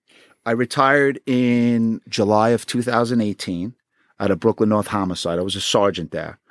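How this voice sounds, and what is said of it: New York accent. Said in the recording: “You had the perfect accent for the job and everything.”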